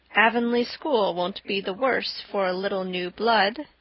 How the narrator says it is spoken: said Marilla dryly

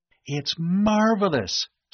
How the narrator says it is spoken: Sandy exclaimed

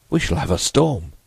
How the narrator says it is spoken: Hyatt exclaimed

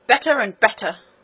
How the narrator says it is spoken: cried the queen and the prince together

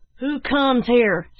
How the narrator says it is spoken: shouted one

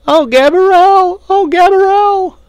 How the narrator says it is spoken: at the top of her lungs

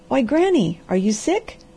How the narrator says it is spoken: he cried anxiously

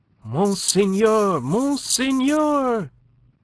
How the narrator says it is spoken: he cried in a quavering voice

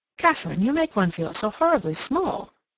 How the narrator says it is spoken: Cassandra exclaimed

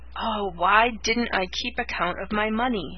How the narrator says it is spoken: For the thousandth time she groaned

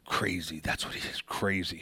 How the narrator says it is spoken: sputtered

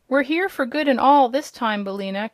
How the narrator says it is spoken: cried Dorothy joyfully

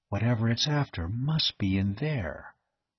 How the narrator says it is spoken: Dane said softly

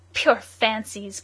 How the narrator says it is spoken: cried the unknown

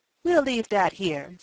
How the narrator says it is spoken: said Tom

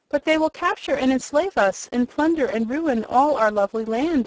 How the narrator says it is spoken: exclaimed the wizard, greatly disturbed by this statement

